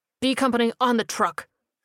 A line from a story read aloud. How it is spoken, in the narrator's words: the fake soldier barked